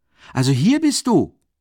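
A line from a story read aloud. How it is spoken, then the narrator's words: Shouting. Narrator (German): schrie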